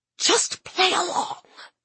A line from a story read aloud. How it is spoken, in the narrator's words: whispered in my ear